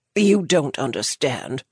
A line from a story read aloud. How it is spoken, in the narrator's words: the man growled